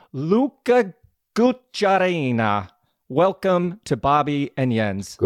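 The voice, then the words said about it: Weak attempt at Italian accent. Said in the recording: “I really tried my Italian accent there, but yeah. Failed miserably.”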